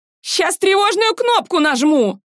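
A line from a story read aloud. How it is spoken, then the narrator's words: Falsetto shout. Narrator (Russian): фальцетом закричал бариста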